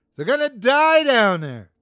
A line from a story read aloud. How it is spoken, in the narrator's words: shouted